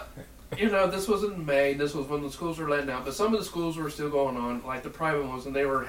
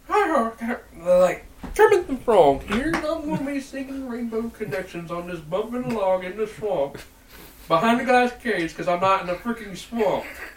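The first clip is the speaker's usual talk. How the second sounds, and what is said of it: Kermit the Frog impression. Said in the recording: “I'm impersonating. I go, like, the Kermit the Frog ... at the time, it was spot on.”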